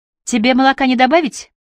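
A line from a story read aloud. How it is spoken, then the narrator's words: Shouted from another room. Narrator (Russian): прокричала Кайя из кухни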